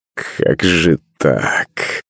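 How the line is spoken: Muttering. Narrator (Russian): бормотал Иван

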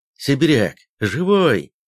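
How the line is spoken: Joyful exclamation. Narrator (Russian): обрадованно воскликнул Кутузов

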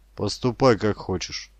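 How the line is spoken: Dry. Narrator (Russian): сказал сухо

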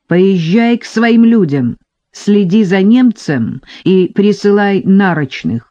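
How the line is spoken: Shout. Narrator (Russian): крикнул он Травкину

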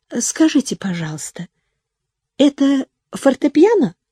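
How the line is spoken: Timid question. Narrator (Russian): она робко спросила у мадемуазель Дианы

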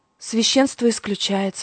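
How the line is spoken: Sighing. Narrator (Russian): вздохнула я

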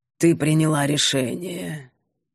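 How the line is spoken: Calm mentor. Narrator (Russian): спокойно констатировала наставница

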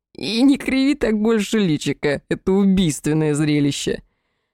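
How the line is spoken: Laughing through sobs. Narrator (Russian): Очередной приступ хохота, перемежающегося всхлипами

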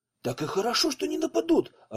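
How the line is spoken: Joyful exclamation. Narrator (Russian): радостно воскликнул Савельев

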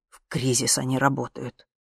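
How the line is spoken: Angry. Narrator (Russian): зло сказал папа

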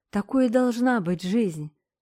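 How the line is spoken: Kitten purring. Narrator (Russian): промурлыкал Дорин котенок

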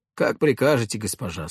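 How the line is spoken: Calm. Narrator (Russian): спокойно ответил Шебутнов

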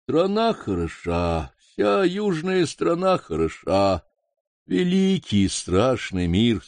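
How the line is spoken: Sleepy voice. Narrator (Russian): сонным голосом проговорил лама

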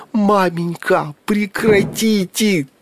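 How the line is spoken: Anguished wail. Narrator (Russian): тоскливо взвыл престижный Митька

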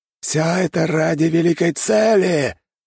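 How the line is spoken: Shouting. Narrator (Russian): прокричал он

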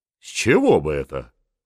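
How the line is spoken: Snorting. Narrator (Russian): фыркнула Анна Иоанновна

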